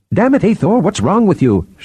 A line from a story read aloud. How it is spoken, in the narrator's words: Shirin cried